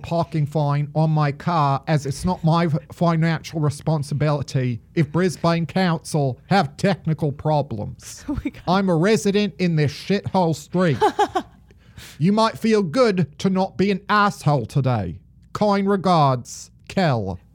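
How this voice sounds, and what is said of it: Put-on Australian accent. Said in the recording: “probably the best my Australian accent has sounded, even though it took me a lot to get there... we just went on a whole global trip through those sentences”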